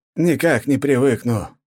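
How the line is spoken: Exhaled, weary. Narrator (Russian): выдохнул Степан

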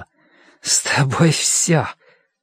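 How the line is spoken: Hoarse girl. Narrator (Russian): девушка сказала хрипло

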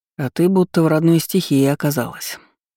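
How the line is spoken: Soft remark. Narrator (Russian): мягко заметил Ролан

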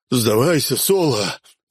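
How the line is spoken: Hoarse wheeze. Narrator (Russian): прохрипел Руди

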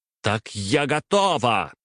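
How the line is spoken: Nearly shouting. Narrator (Russian): Варвара уже практически кричала

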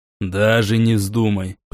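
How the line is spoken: Warning grumble. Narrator (Russian): предостерегающе проворчал Рамон

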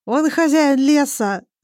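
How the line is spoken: Sobbing. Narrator (Russian): сообщает Арон сквозь рыдание

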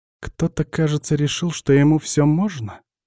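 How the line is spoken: Quiet but very angry. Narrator (Russian): негромко, но очень зло спрашивает

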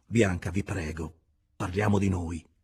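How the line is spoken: Agitated, irritated interruption. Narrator (Italian): interruppe egli con voce alterata, poiché quei discorsi lo turbavano e irritavano

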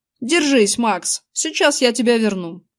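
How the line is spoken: Plain. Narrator (Russian): сказал он

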